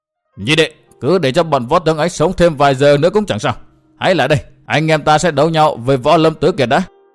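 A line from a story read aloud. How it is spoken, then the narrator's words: Loud call. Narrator (Vietnamese): lớn tiếng kêu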